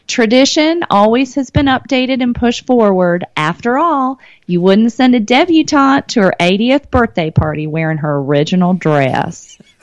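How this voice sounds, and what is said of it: Put-on Southern American accent. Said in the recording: “I'm going to say it a little bit in a Southern accent.”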